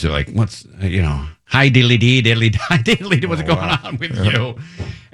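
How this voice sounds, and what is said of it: Put-on thick Irish accent. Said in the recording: “a really thick Irish accent”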